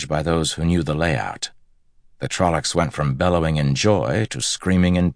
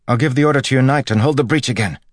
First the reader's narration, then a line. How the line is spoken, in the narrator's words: Yearly said eagerly